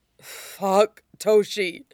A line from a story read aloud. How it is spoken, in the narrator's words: groaned